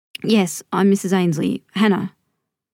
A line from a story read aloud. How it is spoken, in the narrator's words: finally managed to croak out